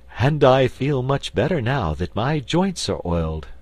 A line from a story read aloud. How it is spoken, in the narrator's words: returned the Tin Woodman with a sigh of pleasure